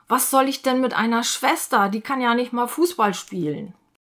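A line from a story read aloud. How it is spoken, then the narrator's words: Incredulous exclamation. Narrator (German): Ungläubig ruft er aus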